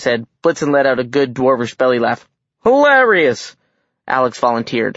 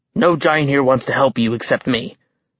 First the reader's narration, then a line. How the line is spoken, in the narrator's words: he said under his breath